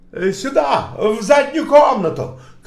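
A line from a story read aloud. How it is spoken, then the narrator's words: Shout. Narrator (Russian): крикнул кто-то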